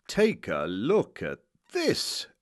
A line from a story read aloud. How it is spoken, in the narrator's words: exclaimed the English master, cheerfully